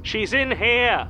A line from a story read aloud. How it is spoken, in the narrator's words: Callum Brody shouts, loud enough for the whole street to hear